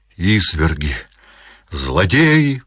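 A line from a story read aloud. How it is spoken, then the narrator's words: Crying out. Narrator (Russian): вскрикнула она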